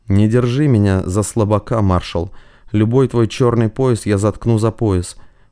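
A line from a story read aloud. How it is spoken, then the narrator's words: Calm. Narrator (Russian): сказал спокойно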